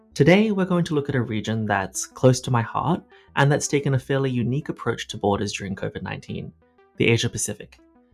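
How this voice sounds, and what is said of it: Australian accent. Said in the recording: “As you might guess from my accent, I'm Australian”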